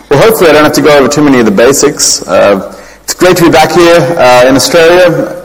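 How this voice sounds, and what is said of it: Fading Australian accent. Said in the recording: “You can probably tell from my accent I'm originally from Australia, but it's slowly fading away.”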